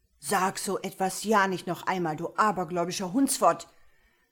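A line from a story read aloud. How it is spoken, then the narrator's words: Bellowed in face. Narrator (German): brüllte sein Freund ihm ins Gesicht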